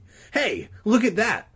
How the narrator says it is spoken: Regina cried suddenly

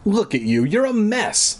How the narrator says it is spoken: Mom shouted at Jed

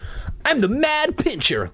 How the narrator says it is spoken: Luke cried

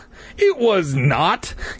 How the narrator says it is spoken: Clay cried angrily

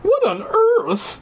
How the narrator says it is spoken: He cried

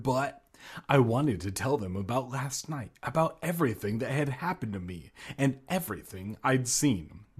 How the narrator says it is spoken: I murmured

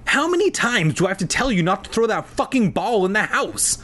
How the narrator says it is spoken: She started screaming

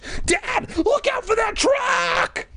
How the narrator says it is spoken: Greg screamed

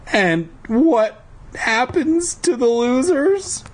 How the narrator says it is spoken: I asked in a trembling voice

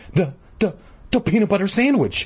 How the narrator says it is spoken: Todd stammered

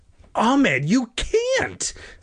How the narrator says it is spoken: Sari cried

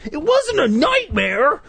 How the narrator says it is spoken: Jay cried shrilly

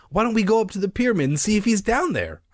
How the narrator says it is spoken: I asked impatiently

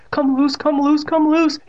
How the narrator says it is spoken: he begged like a little bitch

